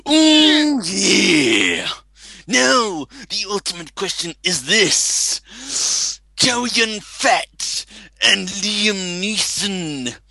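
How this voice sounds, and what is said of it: Imitates another person's voice. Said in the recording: “I'm gonna do it in my Man Randy Savage voice”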